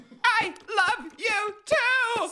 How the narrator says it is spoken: screamed Amy, trying to make words

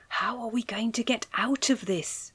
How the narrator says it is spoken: Alice whispered

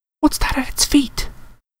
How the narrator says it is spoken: Hermione whispered

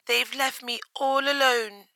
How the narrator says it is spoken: she cried

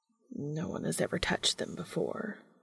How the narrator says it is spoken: Cass mumbles as if in a response to Dean's unworded question

